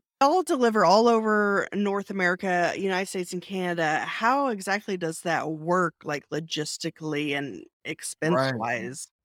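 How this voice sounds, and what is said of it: Texas accent. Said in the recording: “I know you're there in Texas. I can tell not only by your accent, but also y'all.”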